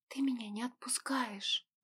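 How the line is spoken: Smiling whisper. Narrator (Russian): прошептала, улыбаясь

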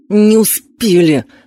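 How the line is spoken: Angry growl. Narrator (Russian): в сердцах рыкнул он

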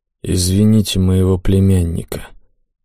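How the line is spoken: Quiet old man. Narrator (Russian): тихо проговорил седобородый

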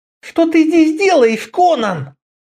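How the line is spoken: Frightened hiss. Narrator (Russian): прошипел он от страха, что кто-нибудь услышит это имя

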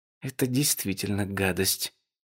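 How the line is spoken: Quiet repeating voice. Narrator (Russian): повторила Али тихим голосом

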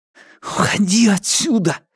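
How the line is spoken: Furious whisper. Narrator (Russian): яростно прошептал

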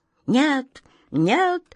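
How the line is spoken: Sudden quiet piercing cry. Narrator (Russian): вдруг тихо и пронзительно вскрикнул Каргор

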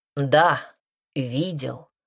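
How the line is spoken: Plain. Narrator (Russian): ответил Игне

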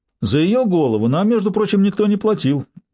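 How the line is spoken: Offended arguing. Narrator (Russian): обиженно заспорил Усач

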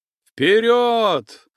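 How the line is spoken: Yelling at full strength. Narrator (Russian): что есть мочи, завопил Макеев

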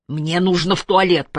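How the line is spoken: Growl. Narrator (Russian): прорычал Питер

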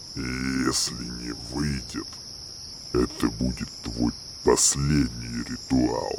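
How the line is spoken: Quiet growl. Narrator (Russian): Арнольд тихо прорычав

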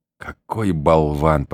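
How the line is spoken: Whispered in ear. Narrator (Russian): прошептала она мне на ухо

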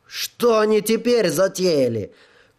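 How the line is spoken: Shouting. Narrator (Russian): крикнула Джоанна

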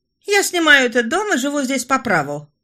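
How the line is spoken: Snapping retort. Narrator (Russian): огрызнулась Франсуаза

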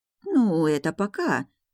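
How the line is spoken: Uncertain mumbling. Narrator (Russian): неуверенно промямлила камеристка

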